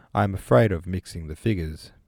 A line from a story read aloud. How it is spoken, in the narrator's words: Pierre replied